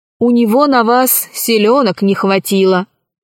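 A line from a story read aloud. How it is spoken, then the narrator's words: Plain. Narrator (Russian): сказал маршал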